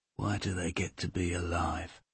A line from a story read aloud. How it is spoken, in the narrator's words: Carl whispers